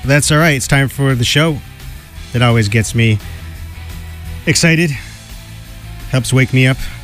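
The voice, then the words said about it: Tired-sounding voice. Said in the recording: “you may hear that in my voice, tired”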